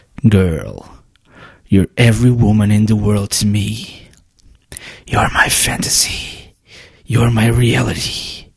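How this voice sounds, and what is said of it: Sexy, seductive voice. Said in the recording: “I'll use my sexy voice.”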